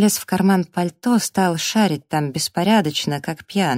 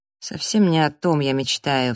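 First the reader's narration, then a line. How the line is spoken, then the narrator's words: Sigh. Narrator (Russian): вздохнул он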